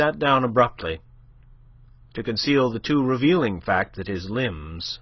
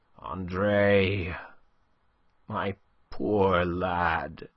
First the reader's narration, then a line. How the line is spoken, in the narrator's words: he murmured